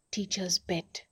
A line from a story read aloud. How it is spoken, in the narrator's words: whispered Bharat indulgently